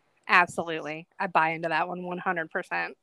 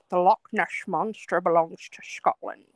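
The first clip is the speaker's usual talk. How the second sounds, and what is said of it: Sean Connery impression, Scottish accent. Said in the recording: “In the great words of Sean Connery ... That is a very good impression, actually.”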